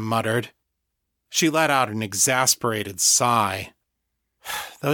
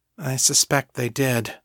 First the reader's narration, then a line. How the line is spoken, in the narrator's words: Fiona said wearily